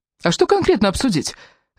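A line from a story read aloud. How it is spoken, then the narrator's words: Sharp question. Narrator (Russian): резко спросил Раф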